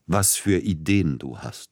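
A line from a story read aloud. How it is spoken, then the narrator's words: Breathless with laughter. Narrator (German): Er bekam fast keinen Atem mehr vor Lachen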